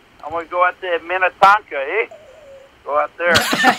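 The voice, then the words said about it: Good imitation of a regional accent. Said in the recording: “really that was a really good impression.”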